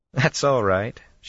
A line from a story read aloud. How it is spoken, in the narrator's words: she laughed